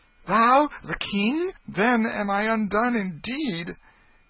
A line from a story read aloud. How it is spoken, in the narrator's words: he exclaimed